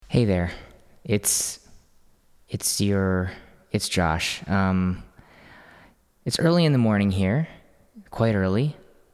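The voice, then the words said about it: Groggy early-morning voice. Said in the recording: “My voice may sound as though I have not spoken yet today”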